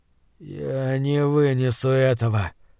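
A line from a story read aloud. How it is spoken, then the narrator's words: Groan. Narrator (Russian): простонал Ван Рейтон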